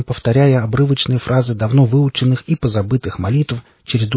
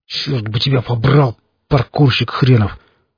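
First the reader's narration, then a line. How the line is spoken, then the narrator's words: Through gritted teeth. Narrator (Russian): процедил я сквозь зубы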